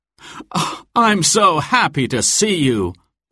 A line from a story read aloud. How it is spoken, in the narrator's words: Robin cried